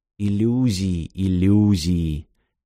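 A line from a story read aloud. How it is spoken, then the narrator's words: Soft whisper. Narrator (Russian): тихо прошептал Трейси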